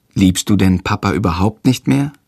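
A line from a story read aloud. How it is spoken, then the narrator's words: Plain. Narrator (German): fragt Jendrik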